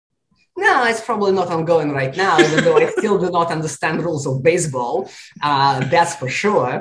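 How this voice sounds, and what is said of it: Heavy non-native English accent. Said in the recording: “English is your second language. You know, you have a heavy accent.”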